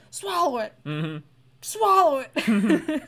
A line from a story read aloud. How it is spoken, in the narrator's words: yelling